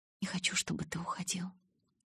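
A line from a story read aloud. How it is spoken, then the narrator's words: Barely audible mumble. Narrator (Russian): чуть слышно пробормотала я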